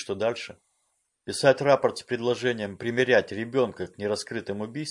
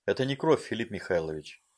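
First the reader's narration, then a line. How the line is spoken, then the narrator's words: Calm report. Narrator (Russian): спокойно доложил Веня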